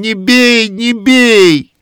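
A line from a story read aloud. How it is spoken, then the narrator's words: Desperate shout. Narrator (Russian): Вася кричит отчаянным голосом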